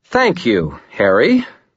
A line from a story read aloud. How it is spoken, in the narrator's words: Mama Murphy said in a loud tone